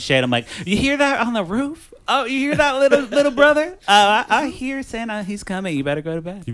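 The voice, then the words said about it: Put-on Baltimore-style accent. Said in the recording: “What accent was that you just got? ... he's from Baltimore. ... So now I'm doing accents.”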